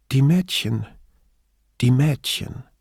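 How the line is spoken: Strained calm. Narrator (German): fuhr Grifoni so ruhig fort, wie es ihr möglich war

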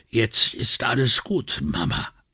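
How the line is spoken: Croaking, breathless reassurance. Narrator (German): Noch ein paar stoßweise flache Atemzüge, dann versicherte sie ihrer Mutter mit krächzender Stimme

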